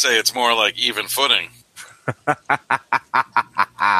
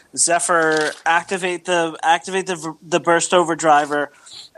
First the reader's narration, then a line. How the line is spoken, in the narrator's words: she shouts out